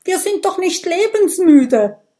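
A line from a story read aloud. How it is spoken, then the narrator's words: Agitated call. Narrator (German): ruft die Dorfchefin aufgebracht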